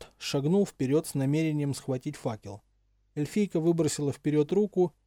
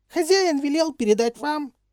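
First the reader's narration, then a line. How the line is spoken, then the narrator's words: Squeaky little voice. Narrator (Russian): запищала домовушка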